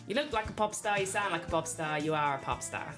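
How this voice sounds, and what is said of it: Poor imitation of an Irish accent. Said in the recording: “Terrible accent. ... That was terrible, actually. ... my Irish accent is no better.”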